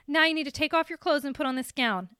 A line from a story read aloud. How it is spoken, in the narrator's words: a nurse snapped